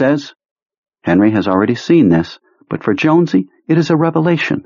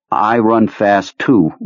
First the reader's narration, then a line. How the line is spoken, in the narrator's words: Richie says coldly